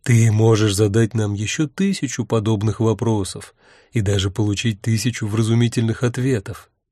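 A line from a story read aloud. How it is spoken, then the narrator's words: Said softly. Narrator (Russian): мягко сказал Урк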